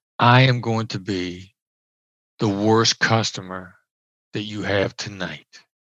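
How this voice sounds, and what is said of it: Smooth late-night FM DJ voice. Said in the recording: “Late night FM DJ voice there, yeah, with the delivery.”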